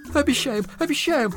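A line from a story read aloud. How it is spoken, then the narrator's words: Sobbing exclamations, woman and sons. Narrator (Russian): восклицают, рыдая, жена Ананси с сыновьями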